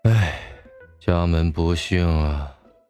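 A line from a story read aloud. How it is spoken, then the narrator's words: Sighing mutter. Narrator (Chinese): 韩芷叹了口气，嘴里念叨着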